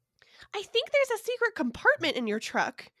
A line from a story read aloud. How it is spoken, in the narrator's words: the living potato yells back